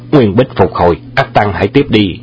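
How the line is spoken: Loud shout. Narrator (Vietnamese): chàng quát to

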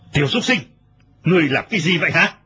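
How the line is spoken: Furious shout. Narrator (Vietnamese): Lão ... cả giận quát

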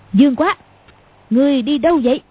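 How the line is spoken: Sudden loud shout. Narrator (Vietnamese): Cầu Thiên Xích đột nhiên quát to

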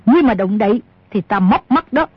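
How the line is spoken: Woman shouting. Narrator (Vietnamese): Bà ta quát

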